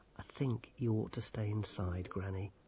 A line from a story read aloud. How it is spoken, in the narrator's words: said Grimmer gently